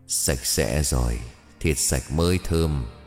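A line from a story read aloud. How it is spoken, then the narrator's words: Smirking. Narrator (Vietnamese): Miệng của bà khẽ nhếch lên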